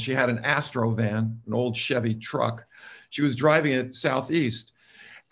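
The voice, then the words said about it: Slight New York accent. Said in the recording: “she and I both spent time in New York City. You probably can hear somewhat of my accent.”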